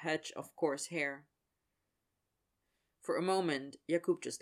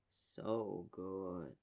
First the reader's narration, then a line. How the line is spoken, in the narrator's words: Yager murmured, voice almost a hum